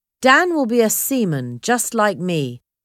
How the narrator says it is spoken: Disco answered

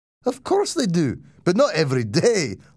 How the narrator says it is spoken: laughed

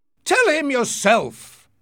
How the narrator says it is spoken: he shouted

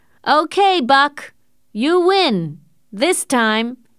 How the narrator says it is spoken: Perrault shouted

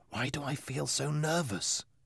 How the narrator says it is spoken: asked in a whisper

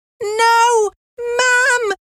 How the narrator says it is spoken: cried Anne

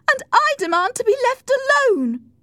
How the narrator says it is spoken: shouted

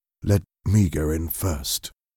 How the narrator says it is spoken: said quietly

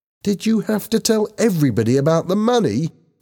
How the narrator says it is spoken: asked angrily

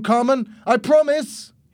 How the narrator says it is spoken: He shouted

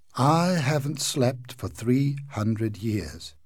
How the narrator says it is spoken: said sadly

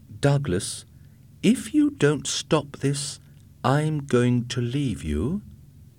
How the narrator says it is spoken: Kirsten said in a quiet, controlled voice

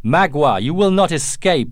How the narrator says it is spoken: Uncas shouted

